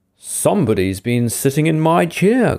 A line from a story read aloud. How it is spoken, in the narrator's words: growled the father bear in his great big voice